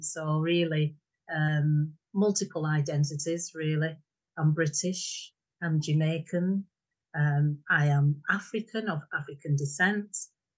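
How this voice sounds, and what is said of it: Lancashire (Bolton) English accent. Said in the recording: “We settled in Lancashire ... I'm from Fred Dibner country, Bolton. ... So hence my accent.”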